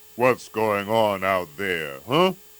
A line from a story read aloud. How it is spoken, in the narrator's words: growled